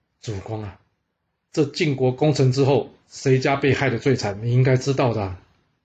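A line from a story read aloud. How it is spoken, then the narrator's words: Sighing. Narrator (Chinese): 商门大悟叹了口气说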